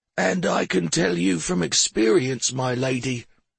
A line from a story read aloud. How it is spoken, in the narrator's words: said Drummer in his ancient, gravelly voice